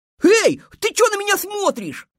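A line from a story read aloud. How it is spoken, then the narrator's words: Shouting hare. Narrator (Russian): закричал заяц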